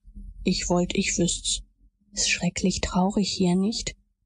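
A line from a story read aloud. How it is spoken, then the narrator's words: Whispered reply. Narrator (German): Huckleberry gab flüsternd zurück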